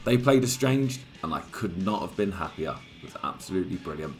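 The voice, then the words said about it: Croaky, hoarse voice. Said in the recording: “my voice sounds a little bit croaky today, that's because I went to see Guns N' Roses”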